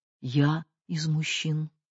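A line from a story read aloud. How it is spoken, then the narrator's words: Quiet. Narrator (Russian): Миша тихо сказал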